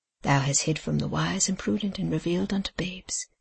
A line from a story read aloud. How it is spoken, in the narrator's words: murmured Tom